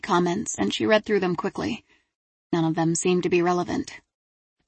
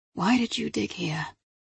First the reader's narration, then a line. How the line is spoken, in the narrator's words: she muttered